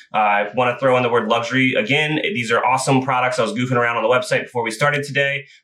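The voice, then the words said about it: Talking very fast. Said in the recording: “I'm talking super fast, so I'm going to try to slow myself down here”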